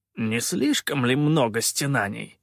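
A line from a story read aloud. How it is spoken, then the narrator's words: Exasperated snort. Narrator (Russian): Не выдержав, фыркнул Калаан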